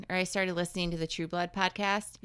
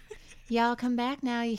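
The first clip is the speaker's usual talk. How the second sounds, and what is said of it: Put-on southern accent. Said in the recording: “play a D&D character with a southern accent”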